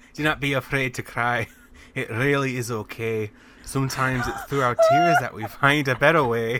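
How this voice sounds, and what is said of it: Put-on Scottish accent. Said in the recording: “I'm going to have to do a Scottish accent for this again.”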